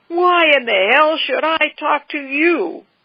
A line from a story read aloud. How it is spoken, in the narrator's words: He planted his feet belligerently in front of the old man and roared